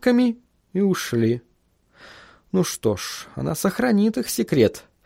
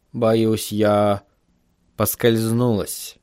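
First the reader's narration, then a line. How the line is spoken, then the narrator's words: Calm remark despite pain. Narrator (Russian): спокойно заметила мисс Сидли, стараясь не обращать внимания на мучительную боль в спине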